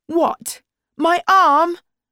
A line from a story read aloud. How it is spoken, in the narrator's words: shouted Nazneen